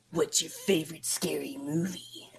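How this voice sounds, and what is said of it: Creepy voice. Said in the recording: “favorite creepy voice”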